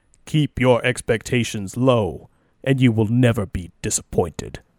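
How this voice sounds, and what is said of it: Imitates a resonant video game character. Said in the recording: “I'm going to try to do the voice, but I'm not going to do it justice ... It was like Kratos was here with us ... I don't quite have the resonance that he has.”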